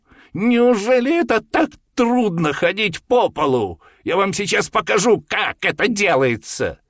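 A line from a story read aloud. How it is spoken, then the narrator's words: Shouted in thin childlike voice. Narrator (Russian): закричал тонким детским голоском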